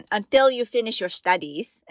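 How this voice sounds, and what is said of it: Imitating father's accent. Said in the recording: “let me say it in his accent.”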